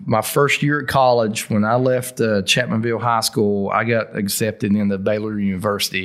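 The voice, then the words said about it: Appalachian accent with slow drawl. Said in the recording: “when I speak, it's always been there ... the Appalachian accent ... They like the slower drawl ... I don't play it up, but I don't cover it up.”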